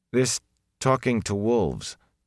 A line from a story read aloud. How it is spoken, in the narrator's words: Perrin said uneasily